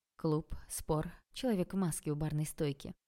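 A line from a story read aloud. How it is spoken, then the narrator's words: Velvety seductive voice. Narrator (Russian): продолжал Олег бархатным соблазняющим голосом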